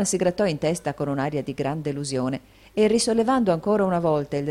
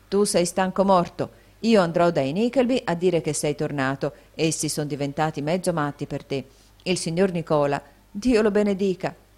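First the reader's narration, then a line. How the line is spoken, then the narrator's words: Exclaiming. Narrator (Italian): esclamò Smike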